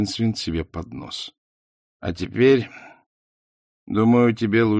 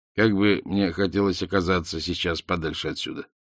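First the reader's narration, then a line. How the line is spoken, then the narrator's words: Muttering. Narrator (Russian): пробормотал он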